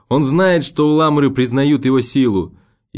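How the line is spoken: Shout. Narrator (Russian): И он крикнул еще

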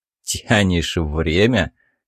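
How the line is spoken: Skeptical snort. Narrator (Russian): хмыкнул собеседник

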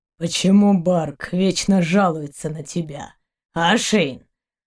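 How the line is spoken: Grumble. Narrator (Russian): проворчал Заури

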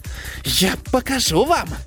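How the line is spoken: Indistinct rasping rat. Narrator (Russian): Невнятно прохрипела белая крыса

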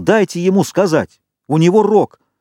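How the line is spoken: Shouting. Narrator (Russian): Ральф крикнул

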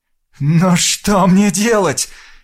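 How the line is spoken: Trembling, bleating question. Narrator (Russian): дрожащим голосом спросил, проблеял Росос

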